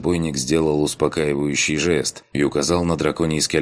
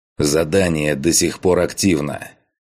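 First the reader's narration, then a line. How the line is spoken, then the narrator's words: Growling. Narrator (Russian): прорычал я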